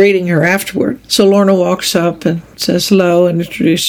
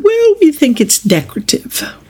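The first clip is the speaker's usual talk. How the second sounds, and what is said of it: Imperious British accent. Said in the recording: “in her kind of imperious British accent”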